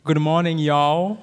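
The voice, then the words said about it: Attempted Southern US accent. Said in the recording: “I need to learn how to speak southern ... this is my attempt of speaking southern”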